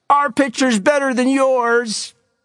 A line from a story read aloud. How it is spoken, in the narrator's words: From the Rattlers' dugout came shouts